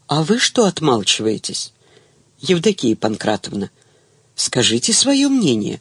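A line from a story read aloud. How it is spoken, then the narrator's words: Verbal attack. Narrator (Russian): накинулась Галя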